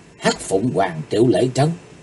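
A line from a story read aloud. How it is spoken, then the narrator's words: Soft startled cry. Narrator (Vietnamese): Quân hùng kinh dị, Chí Tồn kêu khẽ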